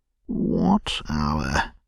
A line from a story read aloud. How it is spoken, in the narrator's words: asked the rat uneasily